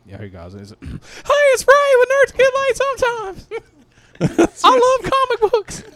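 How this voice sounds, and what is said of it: Imitates another person's voice. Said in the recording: “I'm gonna do my Ray ... my great impersonation ... Good impersonation. You've been working on those.”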